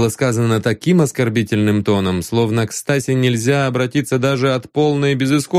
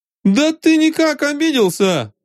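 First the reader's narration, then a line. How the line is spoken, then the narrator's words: Shouting. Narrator (Russian): закричал Жарков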